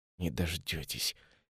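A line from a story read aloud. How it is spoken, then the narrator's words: Quiet whisper under breath. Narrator (Russian): тихо шепчет себе под нос Кассиус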